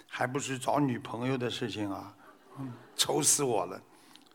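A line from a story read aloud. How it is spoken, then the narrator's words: Sighing, worried. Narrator (Chinese): 儿子叹了口气说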